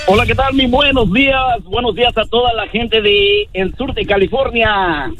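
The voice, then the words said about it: Deep radio announcer voice. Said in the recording (Spanish): “voz de locutor ... Tiene mejor voz que el Feyo y que el Pelón. ... Este sí puede ser locutor.”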